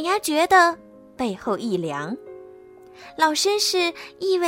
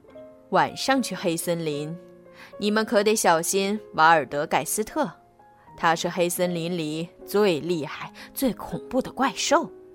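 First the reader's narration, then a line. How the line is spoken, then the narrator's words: Old gentleman, low voice. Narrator (Chinese): 一位老绅士低声说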